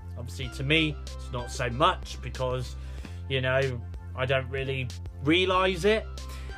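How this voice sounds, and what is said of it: British accent. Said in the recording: “they do pick up on the fact that I'm from the UK with my British accent. Well, to them, I've got a British accent.”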